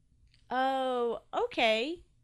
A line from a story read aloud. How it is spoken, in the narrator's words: said Toby